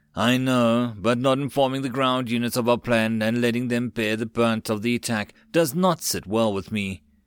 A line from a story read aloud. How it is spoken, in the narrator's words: Letting out a deep sigh, Joseph said